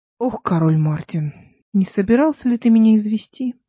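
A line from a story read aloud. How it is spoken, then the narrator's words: Gloomy. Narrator (Russian): сказал, мрачно сверкнув глазами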